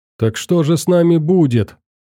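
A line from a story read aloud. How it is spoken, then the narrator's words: Hysterical shout. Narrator (Russian): истерично выкрикнул один из подельников Фила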